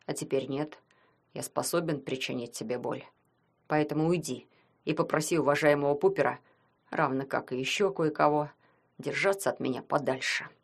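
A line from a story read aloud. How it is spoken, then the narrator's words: Through gritted teeth. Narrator (Russian): сквозь зубы сказал Ванька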